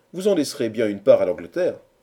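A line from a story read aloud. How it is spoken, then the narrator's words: Old woman exclaiming. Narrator (French): s'écria la vieille Anglaise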